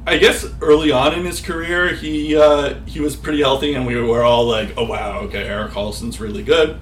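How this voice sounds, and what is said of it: Boston accent. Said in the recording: “That's a Boston accent coming through.”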